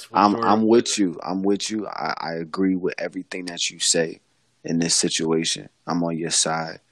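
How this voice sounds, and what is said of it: Put-on voice. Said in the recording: “put on this damn voice”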